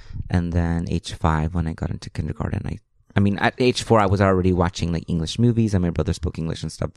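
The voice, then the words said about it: Strong Spanish-influenced English accent. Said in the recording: “my accent comes from like me not knowing English well ... I have a really big accent”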